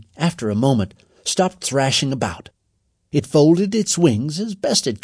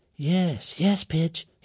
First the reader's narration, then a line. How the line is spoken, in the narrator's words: said very softly